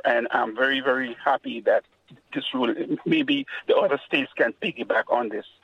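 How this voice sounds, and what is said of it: Caribbean Grenadian accent. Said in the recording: “you pick up on the accent, right? ... I'm from the Caribbean. I'm from a small country called Grenada.”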